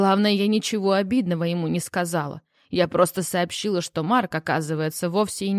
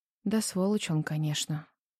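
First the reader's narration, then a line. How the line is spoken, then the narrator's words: Quiet. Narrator (Russian): тихо проговорила Жанна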